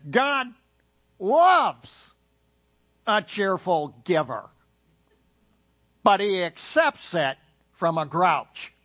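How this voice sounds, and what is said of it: Impression of Howard Hendricks. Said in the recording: “In his inimitable way ... Howard Hendricks, you just went, wow, that's really an amazing impersonation.”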